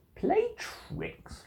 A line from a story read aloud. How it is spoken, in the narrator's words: laughed the Cat